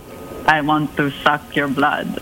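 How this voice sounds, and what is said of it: Vampire character voice. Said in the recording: “your vampire impression ... So bad.”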